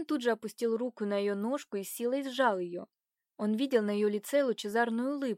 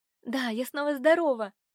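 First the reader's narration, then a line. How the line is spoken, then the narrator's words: Young woman's exclamation. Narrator (Russian): воскликнула девушка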